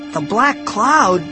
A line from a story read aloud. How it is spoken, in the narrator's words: I cried